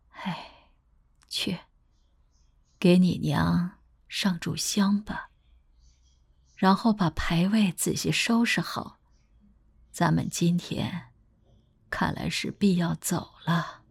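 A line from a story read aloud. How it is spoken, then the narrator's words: Gentle old woman's voice. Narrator (Chinese): 慈眉善目的老妇人轻声道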